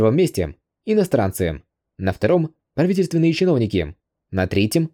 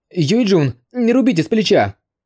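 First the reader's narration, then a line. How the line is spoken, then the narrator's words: Frightened shout. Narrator (Russian): закричал в холодном поту, увидев такое бесстрашное и жестокое наказание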